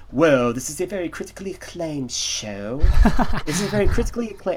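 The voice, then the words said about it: Fake stuffy British accent. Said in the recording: “Fake British accent ... British accent ... I was trying to get a good stuffy voice. Very good stuffy.”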